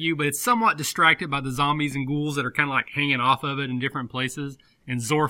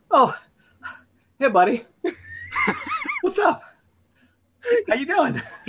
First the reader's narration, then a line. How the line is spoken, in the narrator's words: panting, he goes